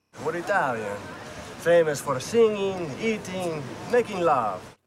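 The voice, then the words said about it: Very bad put-on Italian accent. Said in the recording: “his Italian accent was so god-awful”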